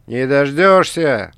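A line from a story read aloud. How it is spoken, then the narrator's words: Shouted. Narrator (Russian): выкрикнул Смит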